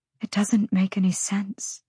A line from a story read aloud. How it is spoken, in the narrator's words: she whispered at last